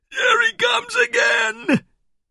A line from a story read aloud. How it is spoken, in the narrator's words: shrieked